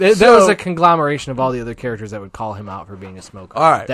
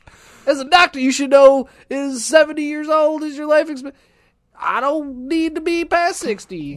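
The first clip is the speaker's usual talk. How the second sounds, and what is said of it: Imitates a TV character's voice. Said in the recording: “Why does Becker talk like that? ... that was my Becker impression”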